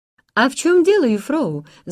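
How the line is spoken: Eager exclamation. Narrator (Russian): с готовностью воскликнул Ханс

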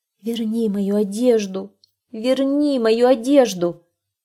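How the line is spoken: Bird pleading plaintively, human voice. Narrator (Russian): птица человеческим голосом стала жалобно просить

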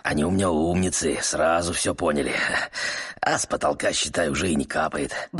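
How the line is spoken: Muttering. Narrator (Russian): бормотал он

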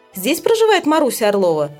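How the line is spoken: Stern question. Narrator (Russian): спрашивает он строго

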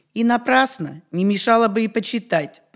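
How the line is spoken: Grumbling elder. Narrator (Russian): проворчал староста

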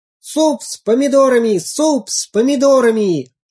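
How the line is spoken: Playful shout. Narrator (Russian): репчатый лук задорно крикнул

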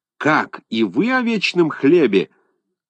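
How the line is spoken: Furious professor's shout. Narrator (Russian): крикнул профессор, весь побагровев

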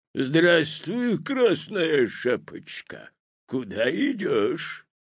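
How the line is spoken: Hoarse bass wolf question. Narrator (Russian): спросил волк хриплым басом

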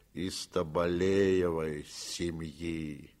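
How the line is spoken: Slow reply. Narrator (Russian): медленно отвечал бурмистр

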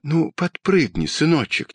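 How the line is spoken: Quiet, mother. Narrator (Russian): тихо сказала мама

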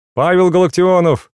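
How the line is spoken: Shout. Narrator (Russian): крикнул доктор

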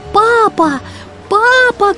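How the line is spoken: Shouting. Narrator (Russian): кричал Немо

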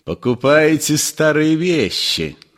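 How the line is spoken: Menacing question. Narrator (Russian): спросил Остап грозно

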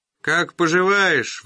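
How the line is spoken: Shouting. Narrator (Russian): выкрикнул он

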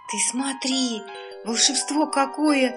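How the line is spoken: Excited whisper. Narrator (Russian): чуть не вскрикнула Лика, но все же сумела это сделать шепотом

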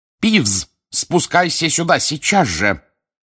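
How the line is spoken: Stern bark. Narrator (Russian): рявкнула профессор МакГонагал

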